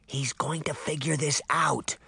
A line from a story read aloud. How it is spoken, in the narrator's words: Daphne whispered